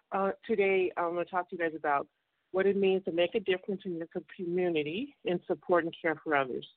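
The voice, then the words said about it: Slightly out of breath. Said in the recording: “I'm a little out of breath right now”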